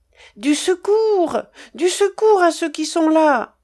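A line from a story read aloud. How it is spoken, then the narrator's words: Exclaimed again. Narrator (French): s'écria de nouveau la voyageuse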